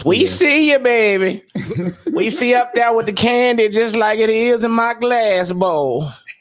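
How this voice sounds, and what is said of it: Old grandma voice. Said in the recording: “give it a grandma voice”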